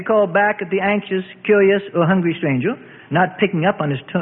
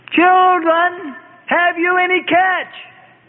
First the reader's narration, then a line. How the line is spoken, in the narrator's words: the stranger called out to them